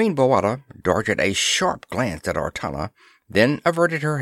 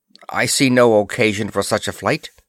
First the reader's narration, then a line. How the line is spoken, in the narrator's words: she said curtly